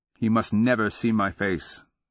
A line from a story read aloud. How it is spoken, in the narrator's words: she said more evenly